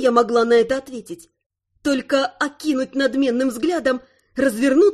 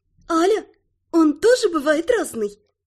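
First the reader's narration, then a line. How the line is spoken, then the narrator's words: Giggled. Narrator (Russian): хихикнула Фейри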